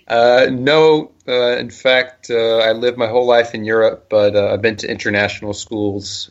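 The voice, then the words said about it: North American accent. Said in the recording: “your accent sounds American... I have a very North American accent.”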